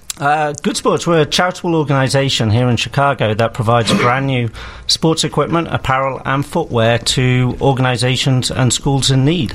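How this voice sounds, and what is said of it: English accent, slightly faded. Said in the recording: “accent ... It's from UK, England. ... Cambridge. ... so it's faded a little”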